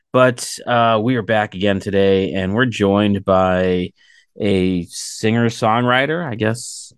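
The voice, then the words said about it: Scratchy, fading voice. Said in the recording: “I feel like I'm losing my voice... So I apologize if I sound a little scratchy.”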